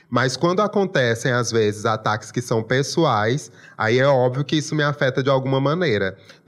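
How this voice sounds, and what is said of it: Strong regional Portuguese accent. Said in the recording (Portuguese): “meu sotaque ... essa é a minha característica principal, o meu sotaque. Eu sou nascido e criado aqui ... me orgulho muito desse sotaque”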